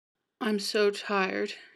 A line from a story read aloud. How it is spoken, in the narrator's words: mumbled